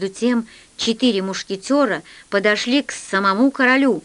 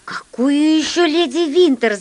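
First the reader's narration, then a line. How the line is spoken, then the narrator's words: Shouting. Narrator (Russian): закричал я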